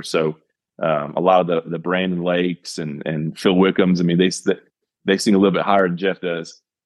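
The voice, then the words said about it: Lower-pitched male speaking voice. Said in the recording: “you can tell my voice is a little bit lower”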